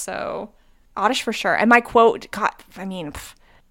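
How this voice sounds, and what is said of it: Usual voice. Nothing is said of it.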